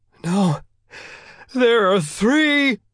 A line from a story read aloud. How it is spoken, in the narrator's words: the minister cried, tears flowing from his face